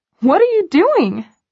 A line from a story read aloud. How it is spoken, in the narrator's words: I squeal